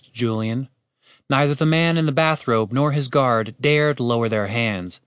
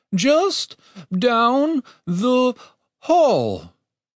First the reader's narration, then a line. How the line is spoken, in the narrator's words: his voice shook with each word